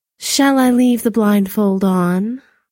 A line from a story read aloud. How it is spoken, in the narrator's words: purred